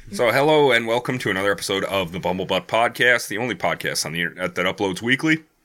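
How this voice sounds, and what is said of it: Slightly hoarse, froggy voice. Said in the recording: “I've got a little frog in my throat”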